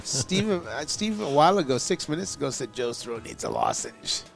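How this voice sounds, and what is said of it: Raspy voice. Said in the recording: “It's my raspy voice ... You would hear the raspy voice these days.”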